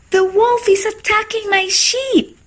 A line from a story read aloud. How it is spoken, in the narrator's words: shouted and screamed